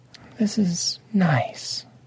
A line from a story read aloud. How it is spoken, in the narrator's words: Lady Obsidian said softly